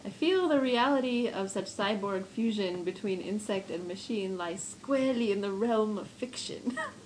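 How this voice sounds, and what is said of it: Put-on accent, fading partway. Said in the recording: “that was a glorious accent ... I drifted into the second half of the sentence”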